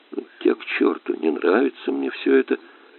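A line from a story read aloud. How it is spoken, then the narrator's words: Quiet. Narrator (Russian): тихо произнес я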